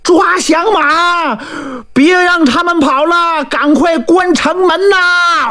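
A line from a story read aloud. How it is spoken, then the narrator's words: Soldiers shouting while chasing. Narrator (Chinese): 官兵们一边追一边喊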